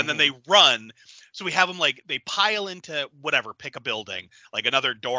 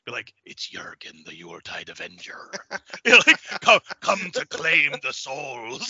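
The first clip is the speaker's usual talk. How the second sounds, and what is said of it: German accent drifting into cartoon voice. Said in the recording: “went from a German accent to sounding like, you know, Mr. Krabs”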